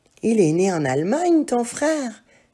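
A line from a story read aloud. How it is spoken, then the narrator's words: Exclaimed. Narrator (French): s'exclama Emma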